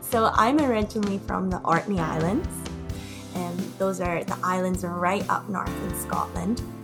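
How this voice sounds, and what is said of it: Unusual Scottish-influenced accent. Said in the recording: “I have the weirdest accent.”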